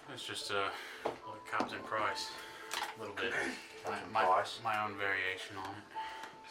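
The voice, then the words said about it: Put-on Australian-British accent. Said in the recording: “Some sort of a British accent. No, it's a little bit more of a... Australian. ... More Australian, accent.”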